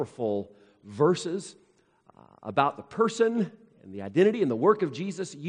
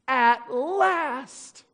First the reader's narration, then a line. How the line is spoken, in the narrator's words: sobbed Lucy